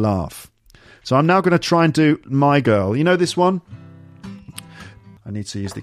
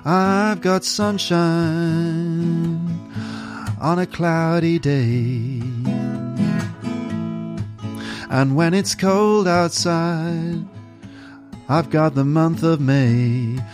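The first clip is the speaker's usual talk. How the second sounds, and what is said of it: Singing in an American accent. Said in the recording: “So I'm doing this in an American voice. I'm trying to make it sound like the original.”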